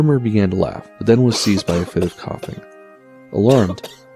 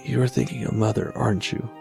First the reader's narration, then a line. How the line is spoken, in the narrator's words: Mortimer softly said